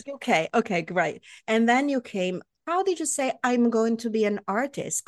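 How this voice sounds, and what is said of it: Foreign accent, somewhat faded. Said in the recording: “speaking with an accent like I do 30 years later. It's obviously a lot less now”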